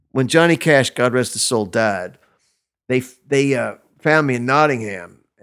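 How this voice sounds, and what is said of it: American accent. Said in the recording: “you also have a good accent for the beeb, because everyone else doesn't have your accent ... We need an American”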